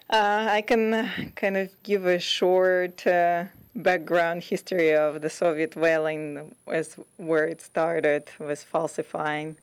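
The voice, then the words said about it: Russian accent. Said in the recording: “originally I'm from Russia, so that's where my accent is from.”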